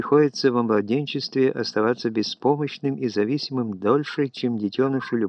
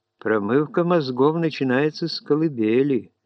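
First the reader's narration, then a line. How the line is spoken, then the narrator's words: Guilty giggle. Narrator (Russian): заключил Уиндхэм и виновато хихикнул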